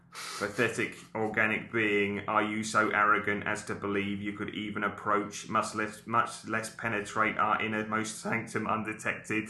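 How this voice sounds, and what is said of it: Australian accent. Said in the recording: “Love the Australian accent there”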